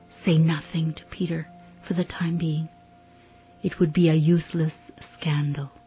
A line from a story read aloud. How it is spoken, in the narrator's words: whispers again